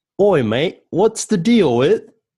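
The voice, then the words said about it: Put-on British accent. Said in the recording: “Oh, you're not going to do an accent, are you? ... I'm going to do an accent. ... It's British Seinfeld”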